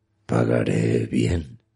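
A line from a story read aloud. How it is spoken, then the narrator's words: Very quiet, unsure. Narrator (Spanish): dijo el extraño muy bajito, como inseguro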